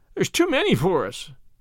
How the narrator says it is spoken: he whimpered

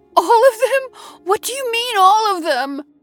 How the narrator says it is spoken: She cried in horror through her tears

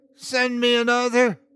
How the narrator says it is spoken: he screamed to the tempest sky

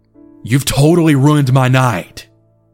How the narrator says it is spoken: I bitterly told him

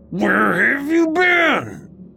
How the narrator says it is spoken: he asked again, half growling and half crying

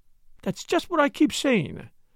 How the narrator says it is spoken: cried Flora eagerly

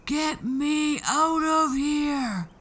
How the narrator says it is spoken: The giant was bellowing and banging, yelling and thumping

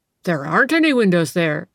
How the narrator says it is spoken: exclaimed the landlord

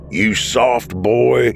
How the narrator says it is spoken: the wicked smile spread across his face when he growled

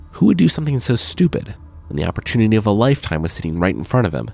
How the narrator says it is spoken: Joaquin sighed

